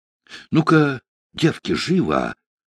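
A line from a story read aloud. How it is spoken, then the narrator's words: Tearful whisper. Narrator (Russian): сквозь слезы прошептала дочерям Бердышиха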